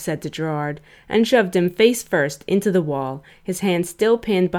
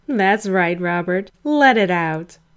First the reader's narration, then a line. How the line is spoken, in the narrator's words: Gerard sneered